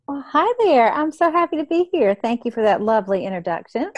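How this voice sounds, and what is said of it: Southern American accent. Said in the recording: “I just love your Southern accent. I'm from the South, but you make it sound like Julia Sugarbaker.”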